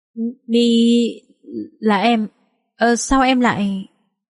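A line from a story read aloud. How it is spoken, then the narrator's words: Trembling voice. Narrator (Vietnamese): Kho run run giọng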